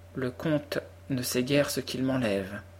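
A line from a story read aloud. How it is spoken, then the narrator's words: Soft, sad voice. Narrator (French): dit-elle d'une voix douce et triste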